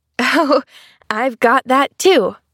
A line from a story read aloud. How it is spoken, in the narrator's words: chuckled Pollyanna